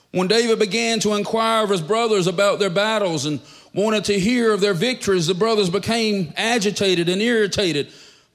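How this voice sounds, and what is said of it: Southern country accent. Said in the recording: “country boy accent”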